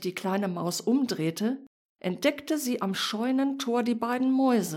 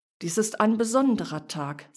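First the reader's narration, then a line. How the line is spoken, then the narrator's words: Plain. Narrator (German): sagte der Stern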